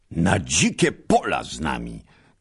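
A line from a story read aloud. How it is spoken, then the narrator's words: Knights shouting together. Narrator (Polish): krzyknęli znów rycerze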